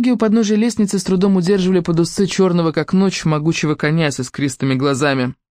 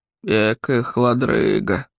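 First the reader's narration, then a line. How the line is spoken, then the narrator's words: Labored grumbling raven. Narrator (Russian): проворчал с трудом ворон Харон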